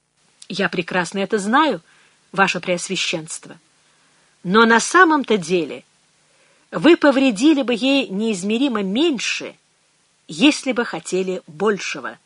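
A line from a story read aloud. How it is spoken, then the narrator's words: Plain. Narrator (Russian): сказала Энн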